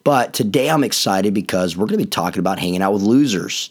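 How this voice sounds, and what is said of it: Raspy, hoarse voice. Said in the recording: “I began losing my voice ... the raspiness of my voice”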